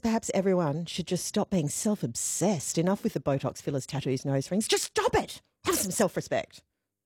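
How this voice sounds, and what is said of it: Impression of a listener's voice. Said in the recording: “You did a really good impersonation of Mary then. ... that was spot on.”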